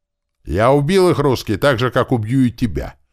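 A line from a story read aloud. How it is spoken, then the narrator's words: Sudden sharp shout. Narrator (Russian): вдруг резко выкрикнул тот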